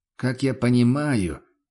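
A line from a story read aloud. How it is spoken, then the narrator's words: Sighing. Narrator (Russian): вздохнул трактирщик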